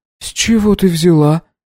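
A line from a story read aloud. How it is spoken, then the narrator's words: Astonished breathy exclamation. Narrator (Russian): изумленно выдохнула Баджи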